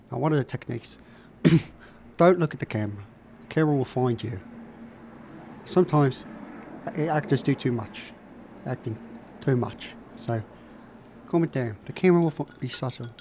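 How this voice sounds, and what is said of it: Michael Caine impression, pitched too high. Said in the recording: “my impression of Michael Caine on acting ... It's a little bit too high. It's a little bit too high. I can bring that voice down a little.”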